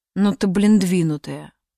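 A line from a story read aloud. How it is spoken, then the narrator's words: Grumbled. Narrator (Russian): пробурчал Гет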